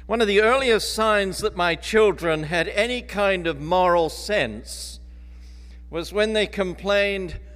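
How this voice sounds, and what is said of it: Mixed English, Australian, North American accent. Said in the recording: “my accent is a mixture of English, Australian, and North America.”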